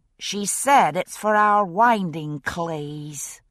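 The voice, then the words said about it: Odd Bostonian Scots accent. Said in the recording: “odd version of a Bostonian Scots accent”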